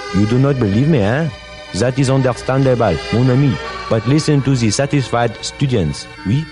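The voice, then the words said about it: Put-on French accent. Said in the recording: “you will speak English with a charming, authentic French accent”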